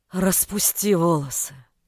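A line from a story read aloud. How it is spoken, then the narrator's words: Hoarse request. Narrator (Russian): Хриплым голосом попросил он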